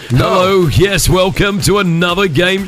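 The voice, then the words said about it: Exaggerated game show host voice. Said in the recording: “What do you think about my game show voice? ... Kind of annoying.”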